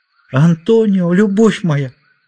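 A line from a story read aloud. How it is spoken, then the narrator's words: Overwhelmed emotional exclamation. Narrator (Russian): воскликнула она, не в силах держать свои чувства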